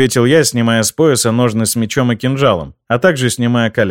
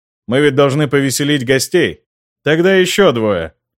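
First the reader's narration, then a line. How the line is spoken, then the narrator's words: Amused snort. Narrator (Russian): хмыкнул баронет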